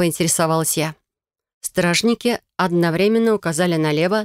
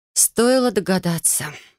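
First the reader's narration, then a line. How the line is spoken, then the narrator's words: Sighing. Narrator (Russian): вздохнула я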